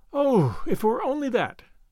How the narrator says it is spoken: sighed

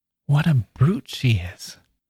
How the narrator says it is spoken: Roby turned back to whisper

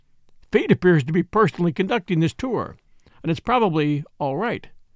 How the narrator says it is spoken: he said, with a forced laugh

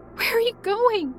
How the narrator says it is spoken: I asked desperately in tears

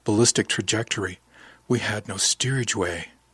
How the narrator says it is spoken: said softly

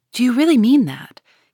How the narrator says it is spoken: he asked anxiously

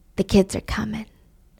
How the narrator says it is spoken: Danny whispers

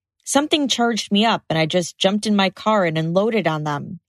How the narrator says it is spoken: he says

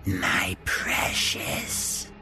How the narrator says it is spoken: She'd hissed

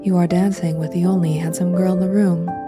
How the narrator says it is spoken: said Mr

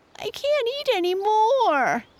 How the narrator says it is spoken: he whined

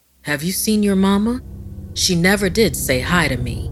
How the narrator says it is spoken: Poppy said grimly

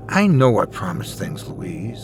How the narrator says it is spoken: I said, sighing

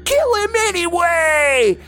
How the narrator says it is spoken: someone screamed

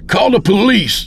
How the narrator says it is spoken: shouted to her

